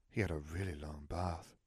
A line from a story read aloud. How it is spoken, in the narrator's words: Myrtle sighed